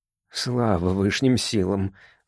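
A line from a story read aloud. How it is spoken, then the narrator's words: Low mutter. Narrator (Russian): вполголоса пробормотал мистер Октопоц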